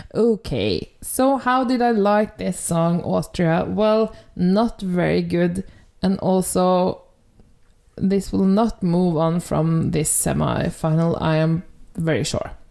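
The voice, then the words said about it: Norwegian accent in English. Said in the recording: “my Norwegian accent will break out in full bloom”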